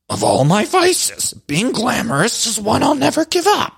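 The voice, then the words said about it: Impression of Luann. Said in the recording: “let me try to do my Luann voice.”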